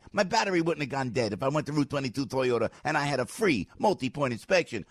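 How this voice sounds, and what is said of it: New Jersey accent. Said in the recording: “That's my Jersey accent.”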